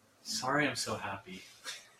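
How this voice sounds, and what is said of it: Sarcastic tone. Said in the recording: “that was sarcastic.”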